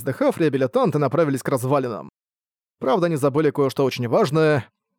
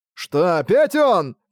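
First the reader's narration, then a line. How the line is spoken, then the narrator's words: Exclaiming. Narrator (Russian): воскликнул один из реабилитантов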